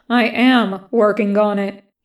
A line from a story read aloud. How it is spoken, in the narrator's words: says